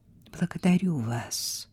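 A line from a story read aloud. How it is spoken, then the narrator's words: Quiet female voice. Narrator (Russian): тихо произнесла она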